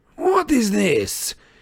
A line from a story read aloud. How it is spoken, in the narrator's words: he cried when he saw Crumb on the ground and Dumbledore and Harry beside him